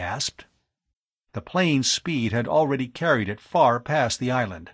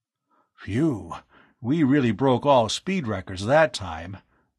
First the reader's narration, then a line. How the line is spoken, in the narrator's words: Arv panted